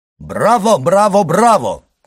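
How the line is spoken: Mimicking shout. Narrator (Russian): крикнул Альбер, подражая банкиру

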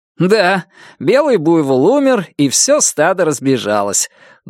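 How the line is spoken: Chuckling laugh. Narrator (Russian): Джон хохотнул

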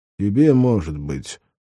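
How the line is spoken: Gloomy refusal. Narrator (Russian): мрачно отказался Афанасий

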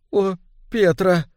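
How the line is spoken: Sobbing. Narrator (Russian): всхлипнула она

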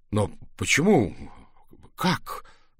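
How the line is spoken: Stammering. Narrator (Russian): Я даже стал заикаться

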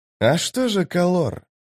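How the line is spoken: Quiet, calm. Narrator (Russian): тихо, спокойно проговорил Тисты Анди

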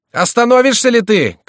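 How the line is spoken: Shouting. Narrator (Russian): кричал Шико

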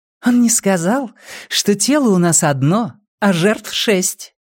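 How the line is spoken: Cheerful whisper in ear. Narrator (Russian): весело прошептала она ему на ухо

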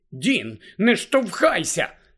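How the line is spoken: Angry girl. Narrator (Ukrainian): сердито промовила дівчина

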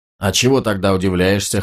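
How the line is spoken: Snorting. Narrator (Russian): хмыкнул Ганелон

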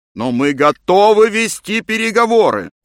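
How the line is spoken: Shouting. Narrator (Russian): кричал мистер Томпсон

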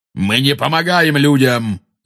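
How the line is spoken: Angry shout, centaur. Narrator (Russian): зло крикнул кентавр

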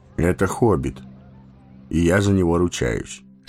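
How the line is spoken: Calm. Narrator (Russian): спокойно ответил Гэндальф

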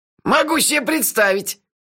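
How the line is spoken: Snide interjection. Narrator (Russian): ехидно вставил Мелифара

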